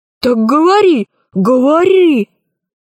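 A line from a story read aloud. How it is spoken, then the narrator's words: Exclamation. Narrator (Russian): воскликнул Громозека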